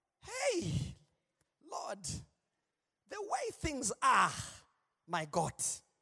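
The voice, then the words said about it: Put-on African accent. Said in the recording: “I'm doing it in the African accent”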